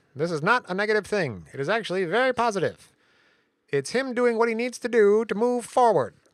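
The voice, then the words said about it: Nasal Simpsons lawyer impression. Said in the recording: “I'll do my lawyer voice. ... I'm trying to do the lawyer from The Simpsons, but it's hard. He's super nasal”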